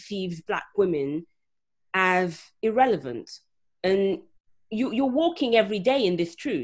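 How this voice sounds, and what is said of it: Usual voice. Nothing is said of it.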